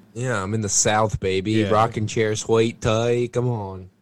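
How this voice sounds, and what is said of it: Put-on Southern accent. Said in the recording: “my southern accent. That's my Kevin Spacey accent.”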